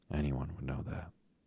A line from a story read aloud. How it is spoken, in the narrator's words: said Dorothy